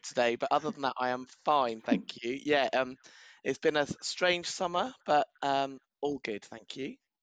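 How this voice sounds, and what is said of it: Slightly rough, sore-throated voice. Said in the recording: “I've got a bit of a sore throat”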